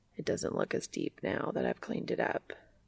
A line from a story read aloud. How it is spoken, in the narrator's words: Castiel murmurs